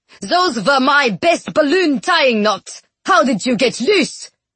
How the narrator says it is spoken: Peter Lumley exclaimed

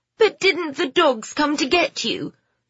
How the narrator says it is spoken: Phoebe said, the distress in her voice rising at her mother's calmness

